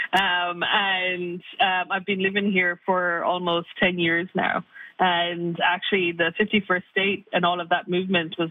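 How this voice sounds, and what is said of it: Irish accent. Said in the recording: “a bit of perhaps an Irish accent”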